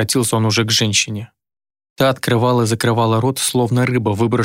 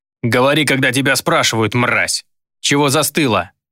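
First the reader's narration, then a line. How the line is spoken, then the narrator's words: Barked. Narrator (Russian): рявкнул чародей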